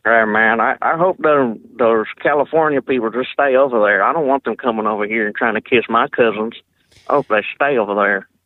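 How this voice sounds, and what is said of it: Put-on Southern accent. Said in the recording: “That's a pretty good southern accent you got there”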